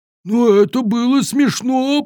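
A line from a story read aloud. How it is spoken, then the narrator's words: Giant's groan. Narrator (Russian): простонал великан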